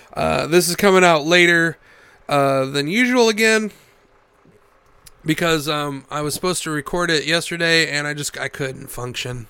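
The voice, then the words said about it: Gravelly voice from a cold. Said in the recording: “my voice sounds gravelly because I'm on the back half of a cold”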